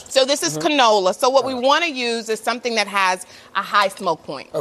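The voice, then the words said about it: Texas accent. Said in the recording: “You heard that Texas accent about to come out.”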